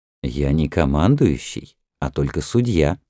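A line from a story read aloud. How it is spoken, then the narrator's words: Calm reply, official. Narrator (Russian): спокойно ответил министр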